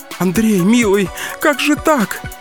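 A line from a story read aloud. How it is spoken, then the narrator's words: Grieving whimper. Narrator (Russian): Скулила Кискина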